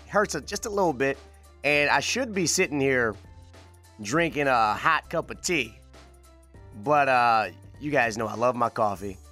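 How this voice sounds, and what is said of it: Slightly raspy voice. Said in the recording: “I am still battling this summer cold of mine. Yeah, you can kind of hear it in my voice, a little bit raspy.”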